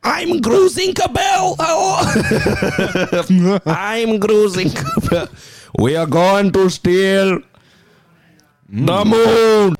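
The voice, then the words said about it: Impression of Gru. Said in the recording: “your best Gru impression”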